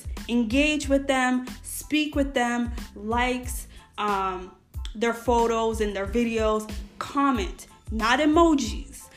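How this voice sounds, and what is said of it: American accent. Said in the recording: “the American accent, ... this is how I speak”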